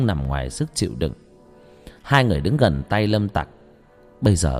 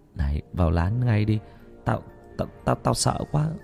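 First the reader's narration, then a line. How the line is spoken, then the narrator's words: Frightened whisper. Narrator (Vietnamese): Thằng Cường nói khẽ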